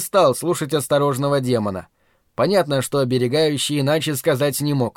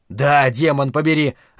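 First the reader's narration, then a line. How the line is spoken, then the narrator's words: Very loud bark. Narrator (Russian): рявкнул я так, что на меня изумленно оглянулась вся рота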